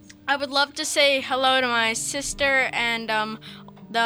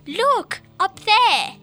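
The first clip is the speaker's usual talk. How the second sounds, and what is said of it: Put-on British London accent. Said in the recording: “He speaks with a British accent. ... Can I hear your British accent? ... that probably sounds like London, you know, a little bit.”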